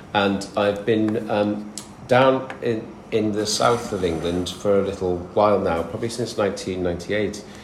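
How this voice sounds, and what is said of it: Northern English accent. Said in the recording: “You'll probably tell from my accent which bit of the world I come from. ... I'm a northern lad.”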